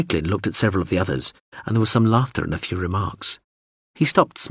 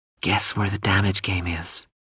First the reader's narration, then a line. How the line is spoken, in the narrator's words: Under her breath to Hawser, she hissed